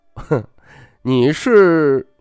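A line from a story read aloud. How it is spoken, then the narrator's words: Laughing. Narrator (Chinese): 徐凤年笑道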